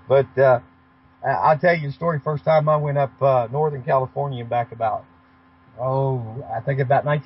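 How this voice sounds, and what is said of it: Southern American accent. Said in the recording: “can you imagine having a southern accent up in the great Northwest up there?”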